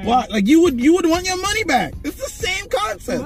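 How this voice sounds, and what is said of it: Yelling loudly. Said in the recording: “Why are you yelling? ... I had to channel my inner Stephen A. Smith”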